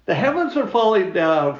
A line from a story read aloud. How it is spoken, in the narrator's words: cried the little red hen